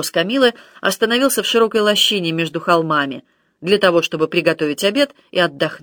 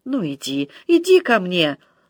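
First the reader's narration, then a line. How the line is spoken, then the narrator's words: Languid sensual moan. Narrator (Russian): в сладостном изнеможении простонала Матильда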